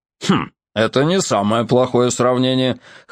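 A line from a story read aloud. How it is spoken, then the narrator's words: Hmphing. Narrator (Russian): хмыкнул капитан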